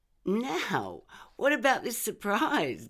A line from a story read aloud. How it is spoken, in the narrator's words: giggled Mum